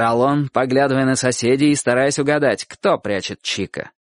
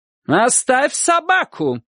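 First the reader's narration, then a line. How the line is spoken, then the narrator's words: Shouting. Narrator (Russian): кричала она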